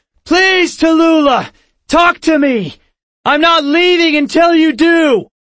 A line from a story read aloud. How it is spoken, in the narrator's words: cupped my hands around my mouth, and shouted